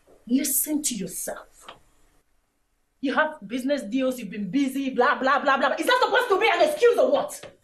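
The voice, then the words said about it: Raised, angry voice. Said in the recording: “You're raising your voice. ... I am raising my voice because I am angry with you. ... Raising your voice.”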